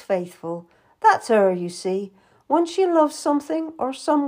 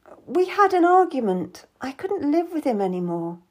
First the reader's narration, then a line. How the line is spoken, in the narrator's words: I muttered